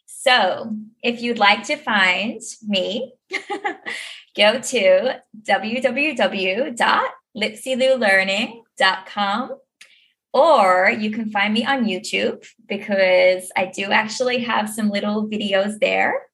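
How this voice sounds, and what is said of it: Australian accent like Nicole Kidman. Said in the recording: “I've got back into the Australian accent. ... That was a challenge ... I think you sounded like Nicole Kidman.”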